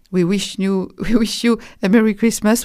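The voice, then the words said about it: English phrase in a heavy accent. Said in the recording (French): “avec mon accent déplorable”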